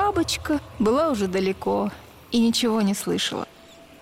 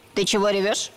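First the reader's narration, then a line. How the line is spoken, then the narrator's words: Stern question. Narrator (Russian): Строго спросила муха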